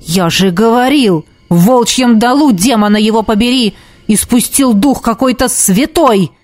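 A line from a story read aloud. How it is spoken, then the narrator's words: Barking. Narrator (Russian): рявкнул темный маг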